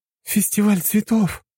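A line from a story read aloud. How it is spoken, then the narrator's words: Exclaimed. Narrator (Russian): воскликнула Аня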